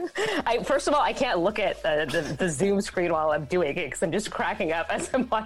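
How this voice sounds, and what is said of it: Usual voice. Nothing is said of it.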